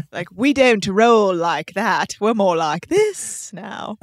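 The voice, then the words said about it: Put-on British Liverpool-ish accent. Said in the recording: “that's a little more Liverpool than I meant it to be ... your British accent”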